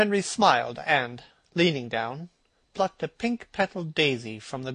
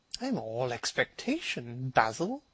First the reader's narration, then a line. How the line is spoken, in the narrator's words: murmured his companion